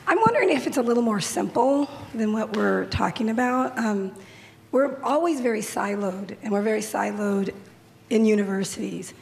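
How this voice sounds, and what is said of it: Congested voice with a cold. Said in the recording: “Sorry if you can't hear me. I have a little bit of a cold.”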